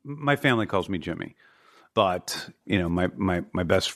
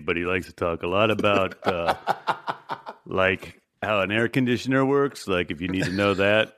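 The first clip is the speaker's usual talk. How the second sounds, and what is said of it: Serious-toned impression of Stevie Blackheart. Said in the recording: “do a Stevie Blackheart impression? ... This is exactly how he sounds. ... he talks kind of like this ... everything is very serious with Stevie”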